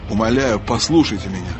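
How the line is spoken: Forcing a calm tone. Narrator (Russian): продолжал рыцарь, стараясь говорить спокойно

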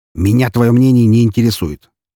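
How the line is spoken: Snapped. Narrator (Russian): тут же огрызнулся он

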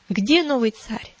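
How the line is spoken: Sharp, recovering from agitation. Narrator (Russian): Оправившись несколько от волнения резко спросил

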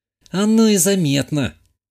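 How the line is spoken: Young woman sighing. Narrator (Russian): вздохнула молодая женщина

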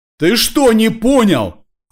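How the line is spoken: Yelled. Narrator (Russian): заорала Снежанна

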